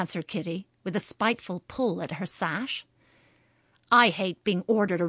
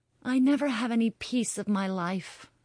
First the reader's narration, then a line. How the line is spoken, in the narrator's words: sighed Kitty, feeling that her lot was a hard one